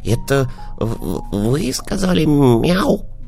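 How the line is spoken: Puppy whispering. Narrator (Russian): прошептал щенок

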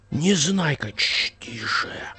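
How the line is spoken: Hissed. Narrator (Russian): зашипел на него Незнайка

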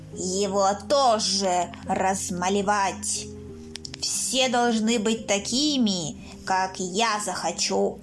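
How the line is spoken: Creaky voice. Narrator (Russian): проскрипел калиф

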